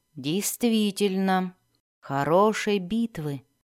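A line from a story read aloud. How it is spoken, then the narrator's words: Whisper. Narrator (Russian): прошептал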